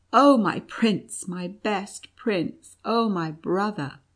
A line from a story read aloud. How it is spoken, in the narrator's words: cried with joyful sobs